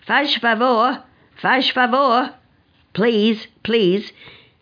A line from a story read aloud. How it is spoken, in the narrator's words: shouting